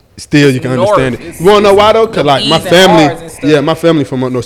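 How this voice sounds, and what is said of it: Atlanta accent, dropped T sounds. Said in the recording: “it's very much an Atlanta accent, but it's like ... the T is gone, the enunciation is gone ... with no T or none. But you know you pronounce your E's and R's.”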